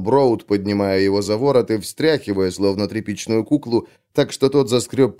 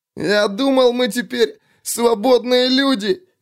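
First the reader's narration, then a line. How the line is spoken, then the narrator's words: Whimpering. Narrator (Russian): захныкал тот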